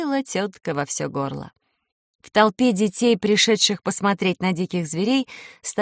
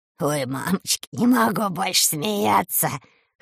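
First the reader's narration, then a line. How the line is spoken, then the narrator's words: Laughing. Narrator (Russian): хохотал Леший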